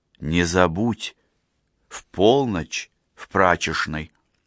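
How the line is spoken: Whisper. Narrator (Russian): шепнула

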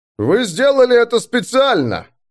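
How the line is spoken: Barking. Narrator (Russian): рявкнул маг воздуха

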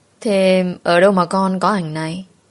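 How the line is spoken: Smiling speech. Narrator (Vietnamese): mẹ chồng của tôi mỉm cười rồi nói

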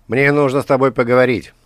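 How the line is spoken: Contemptuous shout. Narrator (Russian): с презрением крикнул

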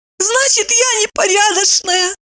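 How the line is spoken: Squeaky. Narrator (Russian): пропищала она

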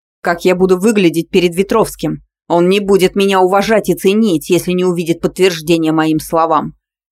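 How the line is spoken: Barking. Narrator (Russian): рявкнул Воров

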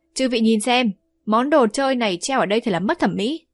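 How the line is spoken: Hearty laughing speech. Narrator (Vietnamese): Vương Đại Niên lại ha hả cười to

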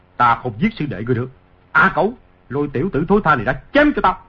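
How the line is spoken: Angry. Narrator (Vietnamese): Ngô Lập Thân tức giận nói

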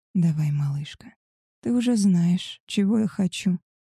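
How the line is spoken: Hoarse rasp. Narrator (Russian): прохрипел он

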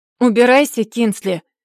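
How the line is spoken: Loud, harsh. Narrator (Russian): повторил он громким и резким голосом

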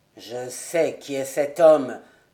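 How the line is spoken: Colonel speaking low. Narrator (French): dit à voix basse le colonel

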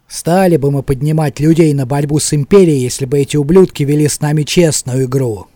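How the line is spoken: Grumbling. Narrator (Russian): ворчал

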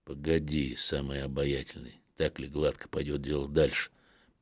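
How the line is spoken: Grumbling. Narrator (Russian): проворчал я

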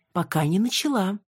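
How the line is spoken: Angelic interjecting tone. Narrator (Russian): ангельским тоном вставила я

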